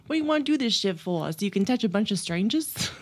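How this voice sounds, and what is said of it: Poor put-on Italian accent. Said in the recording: “My pathetic Italian accent.”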